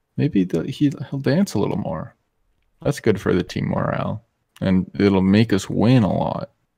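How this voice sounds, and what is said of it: Sarcastic tone. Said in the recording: “As you can tell, I'm being sarcastic.”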